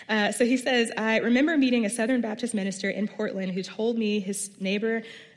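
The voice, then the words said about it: Midwestern American accent. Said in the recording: “you're stuck with the Midwestern accent”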